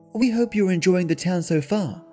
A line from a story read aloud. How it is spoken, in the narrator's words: the mother spoke, smiling warmly